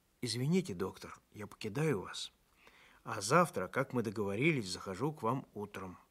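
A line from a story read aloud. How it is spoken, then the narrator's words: Quiet. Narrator (Russian): Максимыч тихо сказал мне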